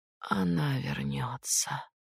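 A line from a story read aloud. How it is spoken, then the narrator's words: Miserable whisper. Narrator (Russian): наконец прошептала несчастная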